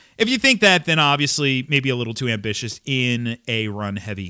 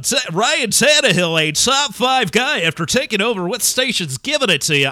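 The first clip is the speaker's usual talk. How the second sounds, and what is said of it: Radio DJ style voice. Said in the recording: “I don't know why everybody sounds like a DJ to me today ... I don't know why I'm doing that impersonation today”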